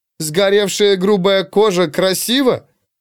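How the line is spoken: Loud snort. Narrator (Russian): Фрина громко фыркнула

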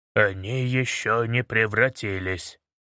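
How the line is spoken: Muttering. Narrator (Russian): пробормотал Баст

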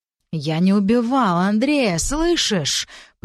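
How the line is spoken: Hissed through teeth. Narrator (Russian): прошипел сквозь зубы Алексей

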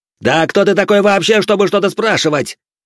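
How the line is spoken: Roared. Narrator (Russian): взревел сын старосты

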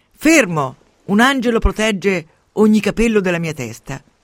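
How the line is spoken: Shouts. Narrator (Italian): Judith grida

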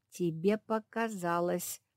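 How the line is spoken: Through gritted teeth. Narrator (Russian): процедила сквозь зубы Капитолина

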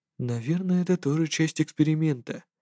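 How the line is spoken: Muttered. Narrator (Russian): пробормотал человек

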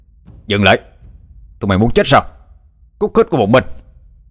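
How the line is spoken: Loud shout. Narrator (Vietnamese): Dũng mới quát lớn

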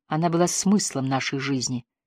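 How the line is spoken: Quiet. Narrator (Russian): тихо сказал Энди

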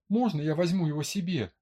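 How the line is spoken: Pleading. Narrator (Russian): взмолилась Лизетта

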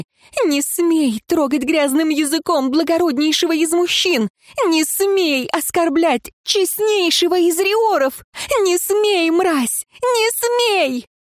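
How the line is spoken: Shrieking woman. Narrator (Russian): визжала женщина

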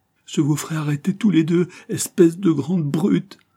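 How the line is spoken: Sobbing boy. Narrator (French): sanglota le gamin

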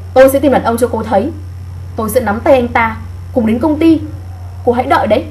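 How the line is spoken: Loud. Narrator (Vietnamese): Cao Ngữ Lam nói lớn tiếng

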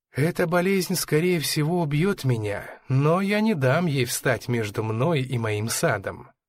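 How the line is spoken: Plain. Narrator (Russian): сказала Пола

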